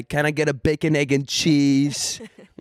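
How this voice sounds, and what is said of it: New Yorker accent. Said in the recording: “You thought I was doing like a New Yorker accent... And I went full, like”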